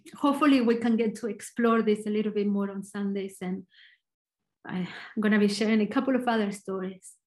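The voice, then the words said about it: Argentinian Spanish accent. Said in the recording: “I'm Argentinian, so my accent is probably a little bit different.”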